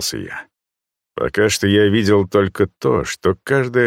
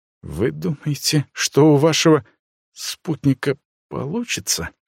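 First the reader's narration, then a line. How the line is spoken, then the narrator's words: Uncertain ghost. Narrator (Russian): неуверенно проговорил призрак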